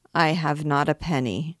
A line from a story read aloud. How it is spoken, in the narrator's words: faltered Gringoire